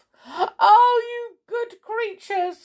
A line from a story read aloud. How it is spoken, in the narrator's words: sobbed Amelia Jane